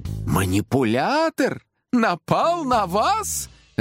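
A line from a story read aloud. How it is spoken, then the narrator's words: Laughing. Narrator (Russian): рассмеялся Чудаков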